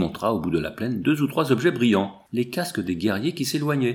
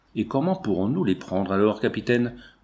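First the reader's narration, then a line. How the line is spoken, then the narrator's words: Plain question. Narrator (French): demanda le chasseur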